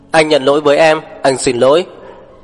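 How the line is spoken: Strained loud shouting, in pain. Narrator (Vietnamese): Lục Bắc Thâm ngắt ngang tiếng hét của cô, đầu đau nhức óc, căng cổ gào to

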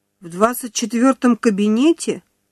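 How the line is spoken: Confused mumble, young woman. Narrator (Russian): растерянно пробормотала девушка

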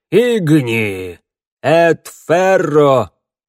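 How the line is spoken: Muffled group reply. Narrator (Russian): глухо отозвались охотники

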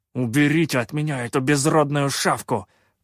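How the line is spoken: Angry hiss. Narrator (Russian): зло прошипел Шутай

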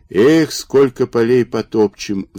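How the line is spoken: Sighing. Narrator (Russian): вздохнул Александр Педопригора

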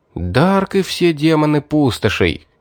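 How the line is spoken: Delighted exclamation. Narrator (Russian): воскликнул я в восторге

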